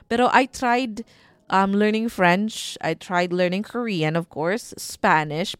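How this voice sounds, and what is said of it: Strong Bisaya-Bicolano Filipino accent. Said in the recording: “my very matigas na accent ... medyo matigas po talaga yung accent ko kasi medyo Bisakol ako eh. So Bisaya, Bicolano”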